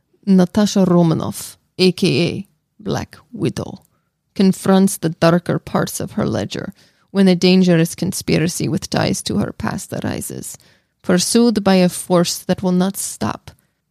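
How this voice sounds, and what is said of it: Put-on accent. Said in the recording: “I'm going to try a new accent.”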